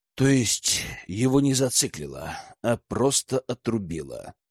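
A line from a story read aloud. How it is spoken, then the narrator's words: Muttered. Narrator (Russian): пробормотал Лежнев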